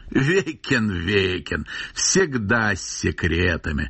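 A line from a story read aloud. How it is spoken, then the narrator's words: Old man laughing loudly. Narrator (Russian): захохотал старик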